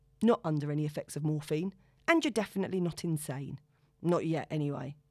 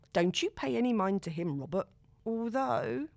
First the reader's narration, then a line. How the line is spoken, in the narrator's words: she rolls her eyes and sighs